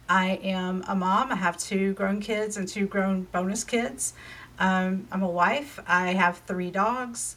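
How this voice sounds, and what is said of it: Southern US accent, North Carolina. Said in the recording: “I am in Charlotte, North Carolina, if you can't tell from my accent. I've lived in the South my whole life.”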